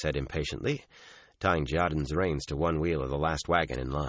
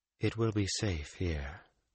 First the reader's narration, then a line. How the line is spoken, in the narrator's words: Moraine murmured